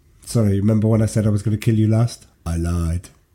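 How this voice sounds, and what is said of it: Schwarzenegger impression, slightly Welsh-sounding. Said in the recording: “Usually, my accents are way off the mark... they all usually sound a bit Welsh... That sound a little bit... Indian,... a bit Schwarzeneggerish.”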